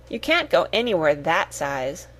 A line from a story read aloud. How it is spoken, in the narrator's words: said Cyril